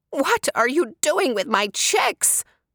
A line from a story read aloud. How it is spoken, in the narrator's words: cried Mama Ostrich